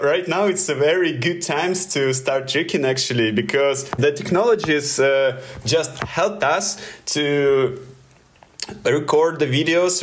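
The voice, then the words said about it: Russian accent. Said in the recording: “sorry for my Russian accent”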